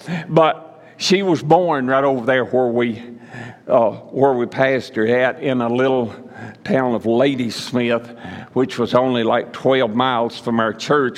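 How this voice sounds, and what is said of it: Northern Mississippi Southern accent. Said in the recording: “Came from a small town in northern Mississippi, Boonville, Mississippi ... That's just out of Tupelo. So you'll hear an accent this morning.”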